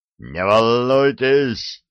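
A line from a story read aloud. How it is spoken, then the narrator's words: Roaring. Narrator (Russian): проревел де Дубьен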